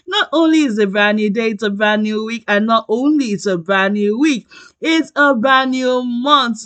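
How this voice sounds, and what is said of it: Excited, upbeat voice. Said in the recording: “You can hear the excitement from my voice”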